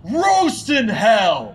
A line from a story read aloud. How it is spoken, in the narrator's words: I screamed